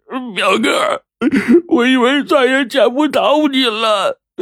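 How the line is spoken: Crying. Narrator (Chinese): 肥仔哭着说

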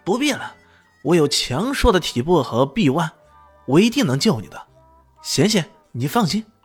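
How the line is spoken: Urgent loud shout. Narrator (Chinese): 陆高笑立马大喊道

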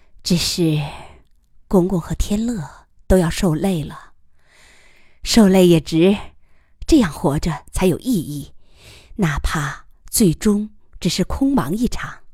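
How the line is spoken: Soft sigh. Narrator (Chinese): 长久思考之后，他轻叹一声

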